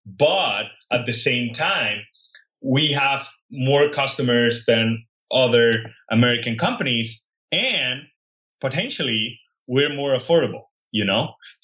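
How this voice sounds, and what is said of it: Non-native English accent. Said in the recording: “I was not born and raised in the US and I don't have a very good accent.”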